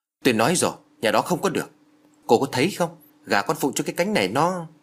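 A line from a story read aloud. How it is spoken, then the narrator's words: Irritated snap. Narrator (Vietnamese): Thấy Út Nguyệt cứ một mực bênh vực cho nhà họ, bà Phủ gắt lên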